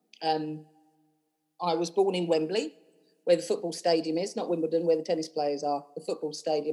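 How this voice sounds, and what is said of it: London English accent. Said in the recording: “you might hear from my accent, I'm not from Edinburgh. I grew up in London.”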